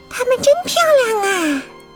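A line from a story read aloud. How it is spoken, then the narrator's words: Smiling. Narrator (Chinese): 阳光小姐也微笑着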